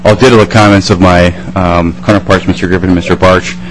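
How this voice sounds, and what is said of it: Hoarse, fading voice. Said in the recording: “since I'm losing my voice”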